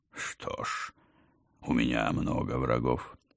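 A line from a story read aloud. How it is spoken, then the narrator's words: Calm. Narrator (Russian): спокойно сказал Холмс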